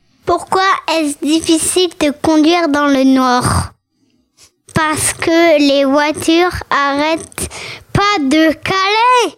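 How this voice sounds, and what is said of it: Speaks with a noticeable accent. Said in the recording (French): “il a l'accent”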